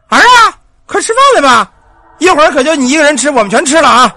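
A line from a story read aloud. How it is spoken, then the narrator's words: Calling out. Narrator (Chinese): 他一边喊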